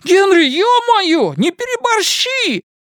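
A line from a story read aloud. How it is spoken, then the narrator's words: Shout. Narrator (Russian): крикнул Рыгало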